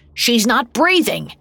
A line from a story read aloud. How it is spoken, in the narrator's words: shouted Wick